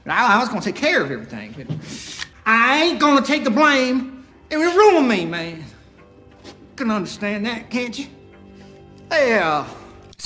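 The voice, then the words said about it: Put-on southern accent. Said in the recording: “a little weird, a little distracting at times ... here's an example of him speaking in the movie in a southern accent”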